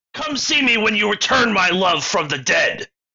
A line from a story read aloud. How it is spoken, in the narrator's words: the man screamed